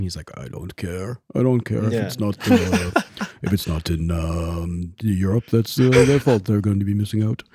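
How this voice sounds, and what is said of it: Imitates another person's voice. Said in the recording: “great impression ... I feel like I sound like Ivan Drago from Rocky IV.”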